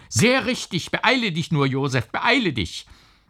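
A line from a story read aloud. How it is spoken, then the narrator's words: Uncle shouting. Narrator (German): schrie der Onkel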